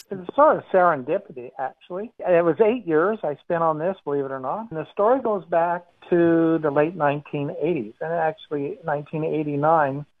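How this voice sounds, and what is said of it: American accent with Australian influence. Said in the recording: “As you can hear from my accent, I'm an American-born Australian”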